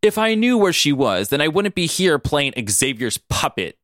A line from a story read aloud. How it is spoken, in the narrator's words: Mystique snapped